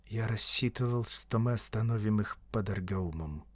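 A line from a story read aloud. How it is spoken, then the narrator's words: Quiet. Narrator (Russian): негромко сказал Баппу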